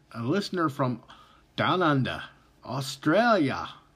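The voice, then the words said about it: Poor put-on Australian accent. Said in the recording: “Yes, I got a terrible Australian accent”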